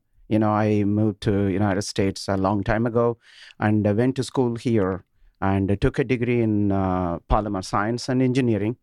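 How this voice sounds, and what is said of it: Indian English accent. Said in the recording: “as you can gauge from my uh, accent, uh, I actually come from India”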